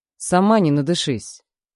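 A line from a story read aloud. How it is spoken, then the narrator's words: Rude retort. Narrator (Russian): грубо бросает мне в спину Марк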